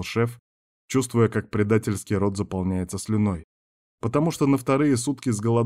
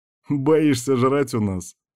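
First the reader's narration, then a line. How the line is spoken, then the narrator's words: Chuckling. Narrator (Russian): хохотнул вожак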